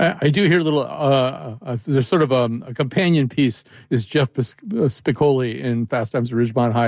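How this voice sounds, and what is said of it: Usual voice. Nothing is said of it.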